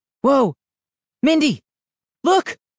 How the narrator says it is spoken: cried

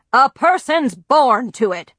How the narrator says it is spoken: grandfather boomed

